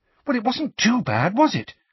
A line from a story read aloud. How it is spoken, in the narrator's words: asked Hermione anxiously